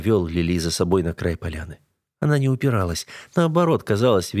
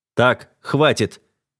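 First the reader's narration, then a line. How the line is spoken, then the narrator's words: Barking. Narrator (Russian): рявкнул я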